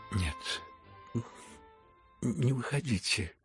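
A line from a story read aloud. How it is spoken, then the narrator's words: Breathless whisper. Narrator (Russian): прошептал он наконец и с усилием перевел дух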